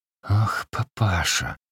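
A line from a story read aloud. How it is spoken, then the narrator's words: Hissing, losing patience. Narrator (Russian): шипел он, как бы не выдержав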